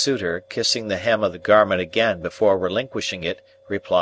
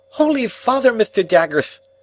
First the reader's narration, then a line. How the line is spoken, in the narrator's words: cried my excitable acquaintance, turning white